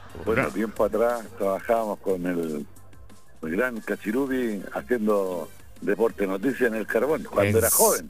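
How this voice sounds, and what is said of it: Radio announcer voice. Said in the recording (Spanish): “tiene voz de locutor el amigo”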